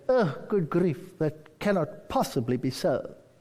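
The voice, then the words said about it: Imitated English accent. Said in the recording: “I was in England ... They have this nice accent.”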